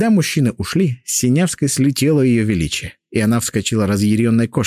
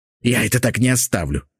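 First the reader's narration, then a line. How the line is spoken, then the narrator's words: Hissed. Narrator (Russian): прошипела она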